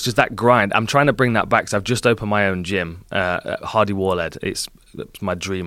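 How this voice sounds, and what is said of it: English accent. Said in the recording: “an English shit. accent, bro.”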